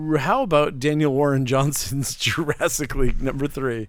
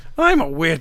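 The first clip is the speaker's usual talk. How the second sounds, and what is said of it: Put-on witch voice. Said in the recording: “my witch voice”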